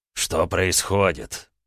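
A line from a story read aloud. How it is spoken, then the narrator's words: Hissed. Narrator (Russian): зашипел на меня Абрахам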